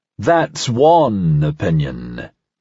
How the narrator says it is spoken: Parnasse rumbled, just loud enough for Talia to hear

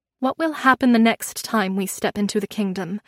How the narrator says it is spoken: I said

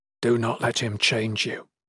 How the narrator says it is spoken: whispered in her ear

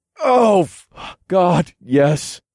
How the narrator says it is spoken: I moaned

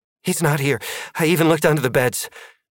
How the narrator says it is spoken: Maddie panted

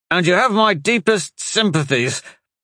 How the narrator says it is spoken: Ferran said through gritted teeth

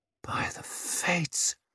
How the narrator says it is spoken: someone muttered

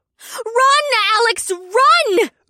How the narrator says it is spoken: Una yelled

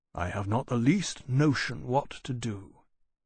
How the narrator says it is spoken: he said quietly

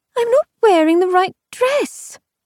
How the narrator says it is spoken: she halfway wailed

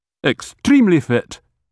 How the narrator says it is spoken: he snapped

